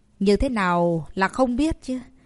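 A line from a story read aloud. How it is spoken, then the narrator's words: Feigned angry shout. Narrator (Vietnamese): Tây Môn đại sư giả bộ tức giận quát lớn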